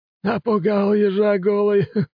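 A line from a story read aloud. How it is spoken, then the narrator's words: Short laugh. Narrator (Russian): хохотнул Мусасимару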